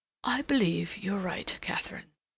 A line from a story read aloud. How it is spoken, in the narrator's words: After a moment's silence, he murmured